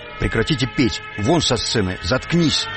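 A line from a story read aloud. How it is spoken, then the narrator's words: Angry crowd shouting. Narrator (Russian): И зал злобно кричит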